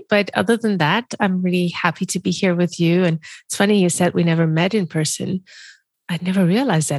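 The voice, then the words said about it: Congested voice from a cold. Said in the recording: “despite a cold. So I apologize in advance if my voice is a little bit funny.”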